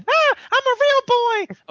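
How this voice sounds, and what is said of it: Pinocchio cartoon character voice. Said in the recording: “What accent should I do for the Bethesda blog? ... An accent of someone that lies a lot. ... So who's a character that lied? Pinocchio? What's Pinocchio's accent?”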